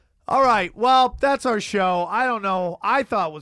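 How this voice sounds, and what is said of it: Usual voice. Nothing is said of it.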